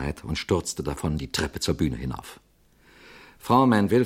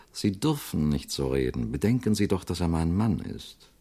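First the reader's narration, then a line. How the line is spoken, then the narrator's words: Silvery voice with steely edge. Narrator (German): sagte Frau Manville mit ihrer silberhellen Stimme, die einen stahlharten Beiklang hatte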